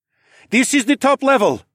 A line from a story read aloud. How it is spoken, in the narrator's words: Leo shouted over his shoulder